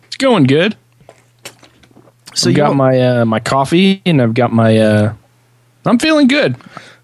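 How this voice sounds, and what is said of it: Rough voice from illness. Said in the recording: “sexy voice ... I've been sick about a week ... just enough to wet the throat”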